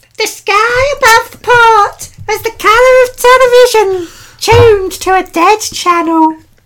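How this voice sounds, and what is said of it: Odd attempt at higher-pitched voice. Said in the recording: “I will now say it in Brian's voice ... You sound weird. You sound weird ... You got a higher pitch than me. I was trying for something and it didn't work.”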